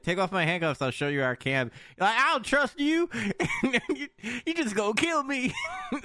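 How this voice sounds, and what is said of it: Put-on Southern US accent. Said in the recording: “I'm doing like southern accent for the umbrella guy.”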